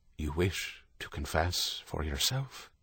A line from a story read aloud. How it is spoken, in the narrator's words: Father Michael sensed the dismay and said in his most calming voice